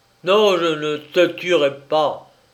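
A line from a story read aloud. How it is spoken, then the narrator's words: Harsh, hate-filled voice. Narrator (French): lui dit-il d'une voix dure et chargée de haine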